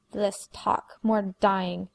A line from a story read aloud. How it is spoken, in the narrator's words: snarled the third vampire